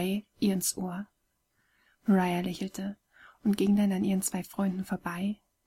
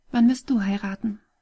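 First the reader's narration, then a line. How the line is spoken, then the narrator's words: Gentle question. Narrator (German): fragte sie ihn sanft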